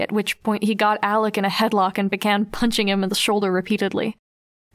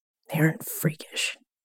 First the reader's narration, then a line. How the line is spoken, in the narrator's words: Bitch muttered